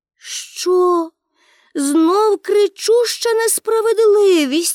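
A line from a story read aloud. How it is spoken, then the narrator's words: Exclaimed. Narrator (Ukrainian): вигукнула Пеппі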